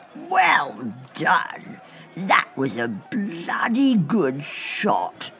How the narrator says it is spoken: slurred the knight

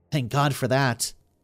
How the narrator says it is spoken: Yvonne muttered wearily

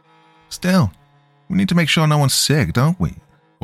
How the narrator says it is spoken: whined Craig

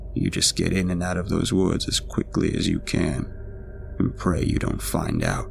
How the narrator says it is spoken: he replied in a low voice

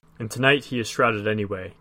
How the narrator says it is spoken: Gimli muttered

